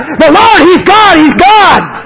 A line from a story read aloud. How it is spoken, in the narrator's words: everybody was screaming and crying out